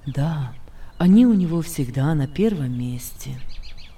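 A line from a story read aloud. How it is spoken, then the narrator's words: Sad-sounding reply. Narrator (Russian): ответил Иосиф, и Маккракену показалось, что голос Иосифа при этом прозвучал грустно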